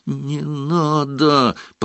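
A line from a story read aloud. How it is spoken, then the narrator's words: Moan. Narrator (Russian): простонал Гарри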